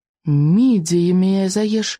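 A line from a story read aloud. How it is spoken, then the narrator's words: Exclaimed. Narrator (Russian): воскликнул Икинг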